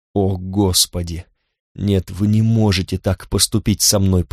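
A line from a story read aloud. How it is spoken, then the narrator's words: Moaning. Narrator (Russian): простонала она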